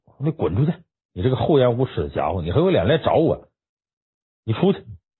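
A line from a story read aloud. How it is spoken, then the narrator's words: Furious outburst. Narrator (Chinese): 格里莱大怒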